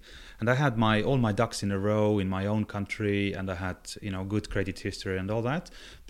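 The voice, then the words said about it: Non-British foreign accent. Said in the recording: “As you can hear from the accent, I'm clearly not British”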